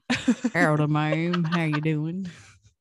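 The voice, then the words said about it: Put-on deep cowboy accent. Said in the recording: “do a cowboy accent. ... You gotta go deep.”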